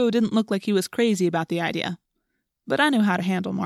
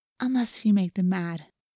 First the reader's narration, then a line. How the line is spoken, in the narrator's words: in a quieter voice, she added